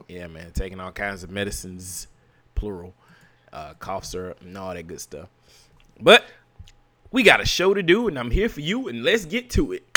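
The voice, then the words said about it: Slightly weird, sick-sounding voice. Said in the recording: “I'm up under the weather a little bit, so my voice is going to sound a little weird”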